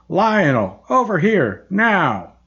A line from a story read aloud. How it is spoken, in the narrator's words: yelled again